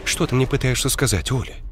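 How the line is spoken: Muttering. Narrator (Russian): пробормотала Ира

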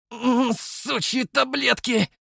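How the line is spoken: Angry rasp. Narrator (Russian): зло прохрипел я

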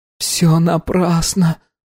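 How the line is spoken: Whisper. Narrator (Russian): прошептала Анна

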